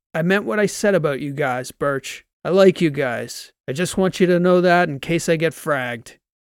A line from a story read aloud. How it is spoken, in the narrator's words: Transom shouted